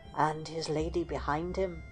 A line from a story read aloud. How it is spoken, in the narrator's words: Catherine added softly